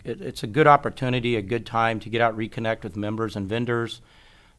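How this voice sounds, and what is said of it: Worn-out, strained voice. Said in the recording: “you can probably hear my voice. ... My voice is not caught up with me yet uh, from being out in Vegas”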